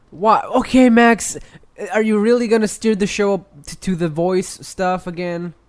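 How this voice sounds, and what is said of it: Deep, sore-sounding voice. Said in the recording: “another deep voice cast? ... now you got a sore voice? ... Why do you have a deep voice? ... Do you have a cold? ... why you sound different”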